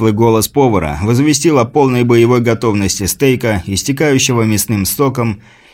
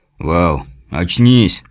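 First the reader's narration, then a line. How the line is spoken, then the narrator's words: Muttering man. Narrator (Russian): пробормотал подручный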